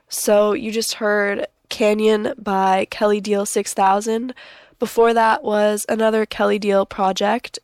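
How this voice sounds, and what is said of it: Gravelly, slightly hoarse voice. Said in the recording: “Sorry about my voice being a little gravelly today. I'm a little bit under the weather”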